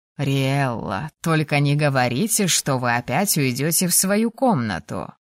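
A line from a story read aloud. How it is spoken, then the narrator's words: Drawling. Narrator (Russian): протянул принц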